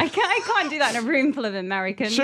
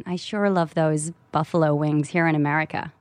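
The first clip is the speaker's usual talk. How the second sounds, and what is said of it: Put-on American LA accent. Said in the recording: “how's your American accent? ... LA accent”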